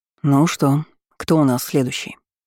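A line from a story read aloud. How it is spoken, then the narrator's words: Plain. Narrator (Russian): спросил Демьен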